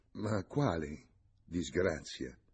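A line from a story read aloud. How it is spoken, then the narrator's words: Murmured. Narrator (Italian): mormorò Antonio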